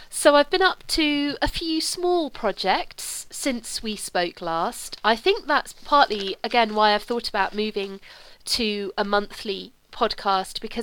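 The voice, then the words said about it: Voice slightly sick, lingering cold. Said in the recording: “I picked up another cold, and I had quite a cough as well ... My voice is still a little bit sick”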